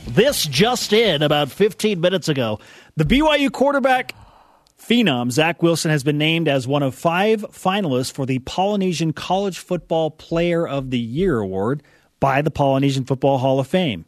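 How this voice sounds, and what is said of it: Newscaster voice. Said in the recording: “newscaster voice”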